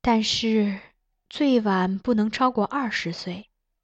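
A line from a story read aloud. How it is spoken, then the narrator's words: Wistful sigh. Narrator (Chinese): 苗淑仪感叹道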